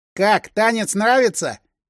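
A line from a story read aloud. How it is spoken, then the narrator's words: Snide teasing boy. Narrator (Russian): ехидно поинтересовался пацан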